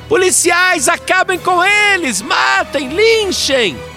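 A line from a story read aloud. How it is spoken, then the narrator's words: Frenzied shouting. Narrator (Portuguese): ela gritava mais do que torcedor fanático em dia de decisão de campeonato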